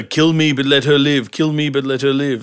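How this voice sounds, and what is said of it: Impression of character Deathhead. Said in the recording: “That's a good impersonation. ... Yeah, that actually is.”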